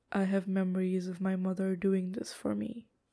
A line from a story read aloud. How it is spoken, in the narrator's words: Lan Wangji says quietly